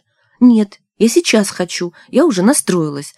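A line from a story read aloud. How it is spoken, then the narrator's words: Indignant shout. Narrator (Russian): возмущенно выкрикнула Надежда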